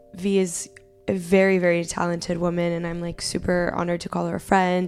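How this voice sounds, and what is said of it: Strained, cracking voice. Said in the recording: “my voice is still kind of messed up... my voice will be cracking a little bit”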